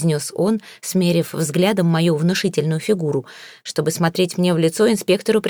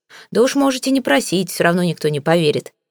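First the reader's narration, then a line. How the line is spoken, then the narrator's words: Skeptical snort. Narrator (Russian): хмыкнул он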